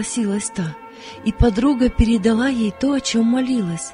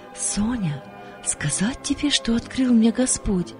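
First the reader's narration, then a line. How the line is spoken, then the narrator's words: Quiet calling. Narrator (Russian): подруга тихо позвала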